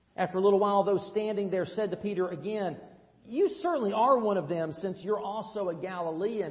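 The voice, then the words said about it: Tennessee Southern American accent. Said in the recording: “most people know that I'm not from around here ... "You're a Tennessean, aren't you?" "That's right. My accent gives me away."”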